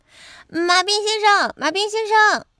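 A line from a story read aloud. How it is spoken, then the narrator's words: Shouting. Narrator (Chinese): 他大喊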